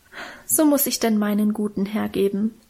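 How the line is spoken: Moved, self-pitying sigh. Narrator (German): seufzte Minchen und schien selber gerührt von ihrer Opferbereitschaft

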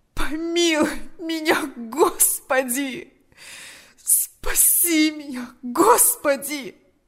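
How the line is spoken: Groaning. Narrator (Russian): застонал он

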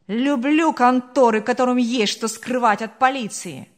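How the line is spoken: Exclamation. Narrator (Russian): воскликнул собеседник

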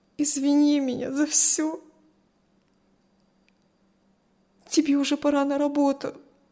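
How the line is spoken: Tearful, then heartfelt. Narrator (Russian): Все еще сквозь слезы выдавила Кристи и, как будто встрепенувшись, проникновенно сказала

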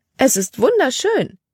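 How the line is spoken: Exclaimed. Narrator (German): rief sie aus

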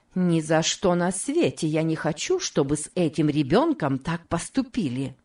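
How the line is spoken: Plain. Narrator (Russian): сказала она

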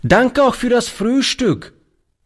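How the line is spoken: Calling while leaving. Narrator (German): rief er beim Hinausgehen

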